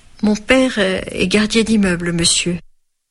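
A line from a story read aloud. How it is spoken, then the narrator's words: Faint voice. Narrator (French): d'une voix faible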